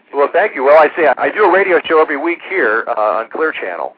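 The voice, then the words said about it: Rich broadcast-style radio voice. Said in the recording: “great radio voice, too. I must say, you have the best radio voice”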